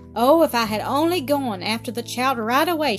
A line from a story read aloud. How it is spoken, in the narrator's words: she exclaimed regretfully 100 times